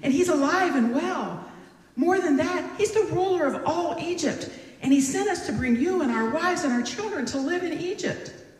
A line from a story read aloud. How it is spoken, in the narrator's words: they exclaimed